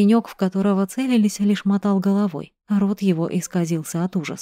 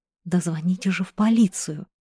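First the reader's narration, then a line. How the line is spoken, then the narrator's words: Silent inner plea. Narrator (Russian): мысленно взмолился Сережка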